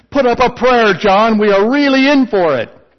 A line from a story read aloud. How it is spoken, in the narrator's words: Terrified, the one man shouted